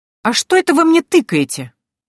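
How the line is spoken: Indignant question. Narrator (Russian): возмущенно поинтересовалась я

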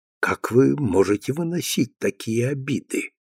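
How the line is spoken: Insistent whisper in ear. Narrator (Russian): навязчиво шепнул Демюрже Финелли на ухо

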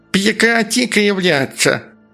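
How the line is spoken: Ugly, harsh voice. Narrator (Russian): продолжало оно дурным голосом

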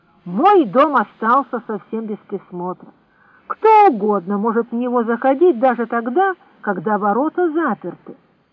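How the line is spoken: Angry grumble. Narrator (Russian): Симон сердито проворчал

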